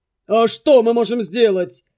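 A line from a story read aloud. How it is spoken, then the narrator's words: Exasperated growl. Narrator (Russian): не выдержав, рыкнул Дурут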